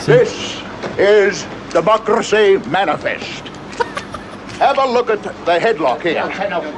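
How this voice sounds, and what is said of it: English Australian accent. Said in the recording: “It's like an English Australian accent.”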